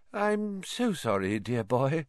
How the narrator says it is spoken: said dreamily

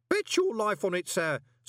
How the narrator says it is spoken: said Groat cheerfully

